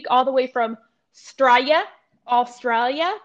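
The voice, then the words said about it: Bad imitation Australian accent. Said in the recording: “my really bad attempt at an Australian accent”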